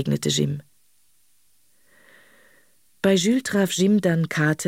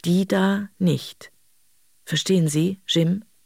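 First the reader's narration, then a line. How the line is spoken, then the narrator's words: Slow, meaningful articulation. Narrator (German): Er artikulierte langsam und bedeutungsvoll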